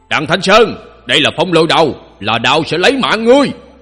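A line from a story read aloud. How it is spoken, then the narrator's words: Mocking, raised voice. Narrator (Vietnamese): Thiết Vạn Mậu cười chế giễu, cất cao giọng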